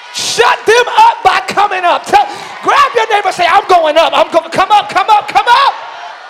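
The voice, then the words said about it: Screaming. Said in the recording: “I'm screaming ... if my scream is getting on your nerves”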